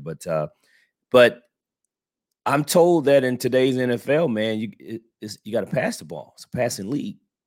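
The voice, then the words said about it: Nasal voice from a cold. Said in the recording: “excuse my voice here. I'm a little under the weather this week, so I sound a little nasally”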